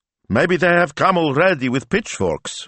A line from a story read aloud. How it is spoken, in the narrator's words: said Don Rocco cheerfully